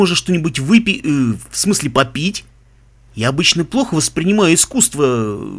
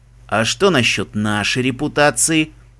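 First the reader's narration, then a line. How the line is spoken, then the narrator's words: Ingratiating question. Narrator (Russian): вкрадчиво поинтересовался Себастьян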